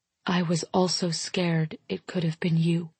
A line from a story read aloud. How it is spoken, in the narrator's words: I whisper